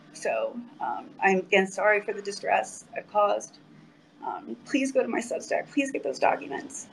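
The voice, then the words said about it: Teary, exhausted voice. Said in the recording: “I'm a little bit teary-eyed because I'm exhausted. I'm absolutely exhausted”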